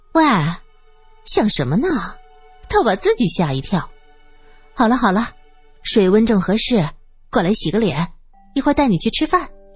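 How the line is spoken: Laughing. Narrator (Chinese): 严英笑道

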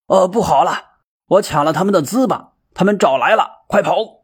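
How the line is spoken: Alarmed shout. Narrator (Chinese): 呐喊一声

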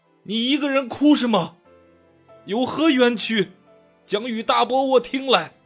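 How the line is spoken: Loud, compassionate. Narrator (Chinese): 不觉生出几分怜悯之心，便大声道

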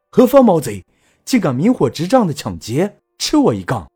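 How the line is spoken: Loud shout. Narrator (Chinese): 我大声喊道

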